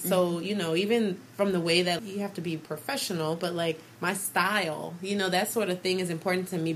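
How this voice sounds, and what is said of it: New Orleans accent. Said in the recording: “I'm always going to be ... from New Orleans. I'm going to still have my accent mostly. I try to slow it down because we talk fast there.”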